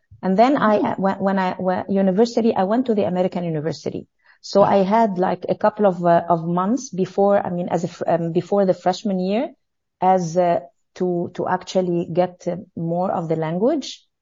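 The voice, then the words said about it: French accent in English. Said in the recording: “I always have a French accent to my English... Yes, I get that, the accent.”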